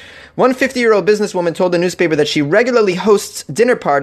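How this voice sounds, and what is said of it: Usual voice. Nothing is said of it.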